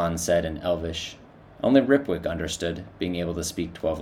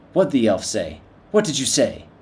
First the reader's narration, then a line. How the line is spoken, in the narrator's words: snapped Shikaza